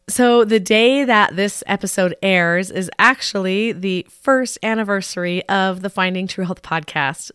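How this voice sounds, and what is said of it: Hoarse, sick-sounding voice. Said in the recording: “tell by my voice. I am still a bit sick ... my cold just got worse and worse ... I pretty much just lost my voice altogether ... I might sound a little hoarse and a little funny”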